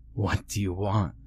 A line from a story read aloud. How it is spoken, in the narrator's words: I choked